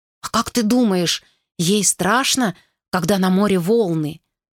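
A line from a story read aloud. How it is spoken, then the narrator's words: Frightened child asking. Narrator (Russian): испуганно спросил маленький Вилли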